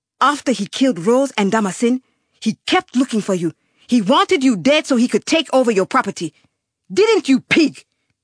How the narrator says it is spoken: Semana shouted again

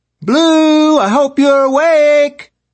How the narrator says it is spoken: Orla screamed from downstairs

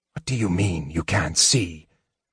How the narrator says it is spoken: Sturm whispered to Tanis

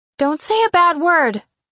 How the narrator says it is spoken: Nicole shouted

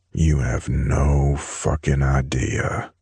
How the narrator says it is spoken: I growled

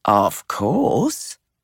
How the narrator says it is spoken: she drawled

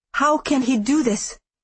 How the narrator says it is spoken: I said, my voice shaking

